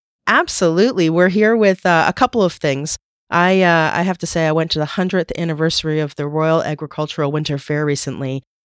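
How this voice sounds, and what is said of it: Slightly off, unwell-sounding voice. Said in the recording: “my voice is a little bit off”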